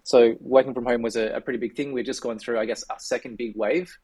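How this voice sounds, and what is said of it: Australian accent. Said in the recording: “for those who can probably tell from my accent, I'm based in Australia”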